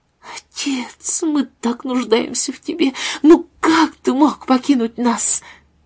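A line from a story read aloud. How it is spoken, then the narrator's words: Sobbing. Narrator (Russian): Томас всхлипнул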